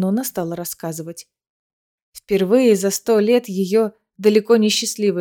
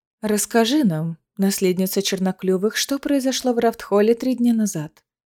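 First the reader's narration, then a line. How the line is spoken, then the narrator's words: Calm suggestion. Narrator (Russian): Спокойно предложила Маноне Креседа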